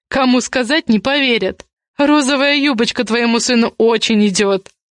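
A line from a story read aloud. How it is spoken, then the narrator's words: Laughing. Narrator (Russian): Камул рассмеялся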